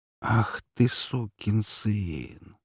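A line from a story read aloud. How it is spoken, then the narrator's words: Near-tearful whisper. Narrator (Russian): прошептал я чуть ли не со слезами на глазах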